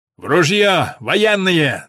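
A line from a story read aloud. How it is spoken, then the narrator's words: Hoarse, forced-cheerful bark. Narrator (Russian): наигранно бодрясь, хриплым голосом гаркнул старшина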